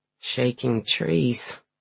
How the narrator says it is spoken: Breslin says dryly

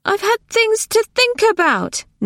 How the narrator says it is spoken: Nona wailed

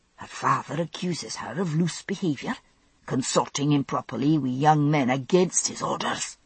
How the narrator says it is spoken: muttered Mistress Fitzgibbons

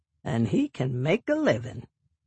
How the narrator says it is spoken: Harold chuckles

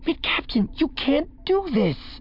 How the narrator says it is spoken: Thalias pleaded

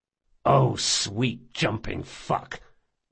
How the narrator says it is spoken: muttered Jean

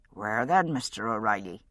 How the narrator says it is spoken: Seamus Hanlon spoke dryly

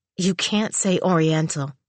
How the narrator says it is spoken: she said flatly

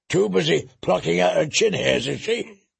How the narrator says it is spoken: Leather spat

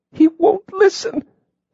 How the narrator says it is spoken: she choked

